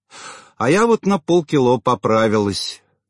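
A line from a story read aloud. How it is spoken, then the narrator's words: Frowning, angry sigh. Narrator (Russian): нахмурилась соседка и сердито вздохнула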